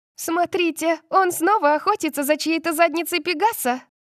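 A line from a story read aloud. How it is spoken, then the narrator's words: Shout. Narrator (Russian): крикнул кто-то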